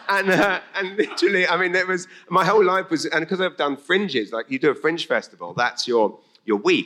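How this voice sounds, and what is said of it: English accent. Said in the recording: “what's that accent? English”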